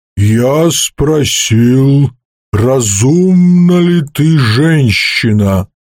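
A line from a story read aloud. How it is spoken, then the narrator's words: Low creature voice. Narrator (Russian): сказала низким голосом существо, называвшее себя Содал-Е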